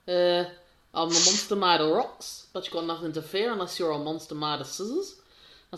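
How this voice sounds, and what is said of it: Put-on New Zealand character voice. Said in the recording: “New Zealand's accent's quite a funny accent, really, when you listen to it after a while. It's a bit more robotic. ... I love doing impressions of them, like Korg from Guardians of the Galaxy Volume 2.”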